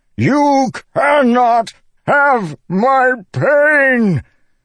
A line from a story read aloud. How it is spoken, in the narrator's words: Dalinar bellowed